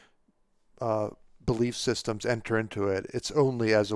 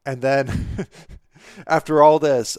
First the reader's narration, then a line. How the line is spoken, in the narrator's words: Bao Chai laughs